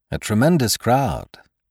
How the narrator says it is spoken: said Sime

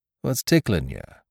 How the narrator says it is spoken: he asked in his ordinary voice, yet gravely

